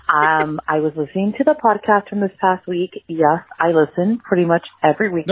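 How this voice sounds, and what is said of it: Deep, hoarse sick voice. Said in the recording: “Sorry, I sound like a man. I am sick right now.”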